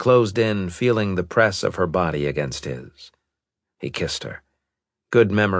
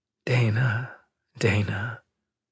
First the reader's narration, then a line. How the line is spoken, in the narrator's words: he whispered